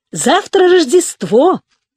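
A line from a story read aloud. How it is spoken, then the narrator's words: Cheerful group chanting. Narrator (Russian): весело повторяли они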